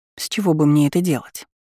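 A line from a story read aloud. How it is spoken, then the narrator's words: Plain. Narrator (Russian): спросила у него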